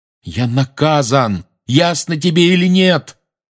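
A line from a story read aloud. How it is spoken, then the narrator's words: Yelling after someone. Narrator (Russian): заорал Гарри ей в спину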